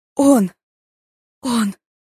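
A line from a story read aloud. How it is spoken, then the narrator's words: Incoherent stammering. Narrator (Russian): не смогла собрать слова в складные предложения, заикалась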